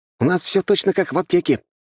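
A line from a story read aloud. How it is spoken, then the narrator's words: Snapping retort. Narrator (Russian): огрызнулся он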